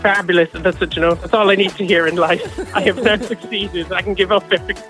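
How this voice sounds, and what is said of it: Irish Cork accent. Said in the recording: “from Cork in Ireland ... the accent hasn't gone very far ... my accent is getting stronger the longer I live here ... I swear I'm not putting it on. It is actually my accent.”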